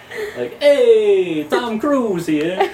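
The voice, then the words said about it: Put-on Italian accent. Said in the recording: “every impression I do is just an Italian accent”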